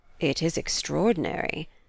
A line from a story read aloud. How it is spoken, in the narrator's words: murmured Reginald